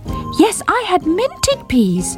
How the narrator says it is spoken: repeated Squeak, determined not to be ignored

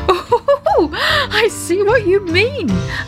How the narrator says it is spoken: laughed Daddy Ted

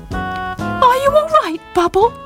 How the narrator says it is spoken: Squeaked asked anxiously

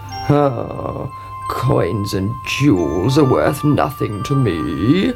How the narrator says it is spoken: croaked the frog

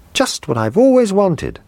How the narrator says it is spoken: he cried

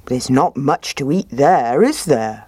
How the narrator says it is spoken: he said

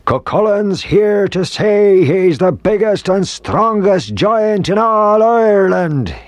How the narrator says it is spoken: he roared

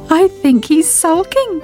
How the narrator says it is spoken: giggled Sybil

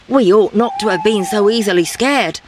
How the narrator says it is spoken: said the leader

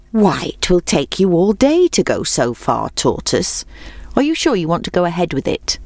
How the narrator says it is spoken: asked the hare

